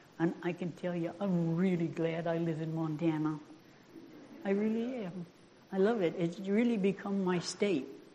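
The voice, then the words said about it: Maine New England accent. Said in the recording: “you can say anything you want about my accent ... I'm proud to have been born in Maine ... I'm glad I'm from New England”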